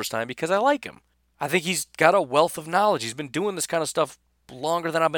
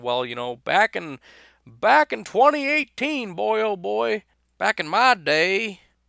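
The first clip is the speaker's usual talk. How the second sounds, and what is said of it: Put-on Southern old man voice. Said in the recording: “I don't know why I would have a southern accent... I don't know why I sound like an old man”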